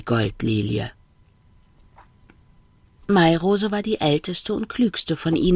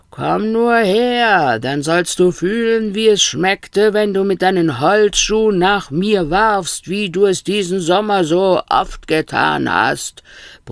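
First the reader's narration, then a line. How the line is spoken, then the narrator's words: Bellowed. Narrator (German): brüllte Stern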